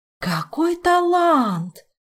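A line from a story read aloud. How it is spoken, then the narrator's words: Delighted exclamation. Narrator (Russian): восторженно воскликнула советница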